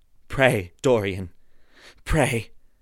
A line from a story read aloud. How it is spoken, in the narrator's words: he murmured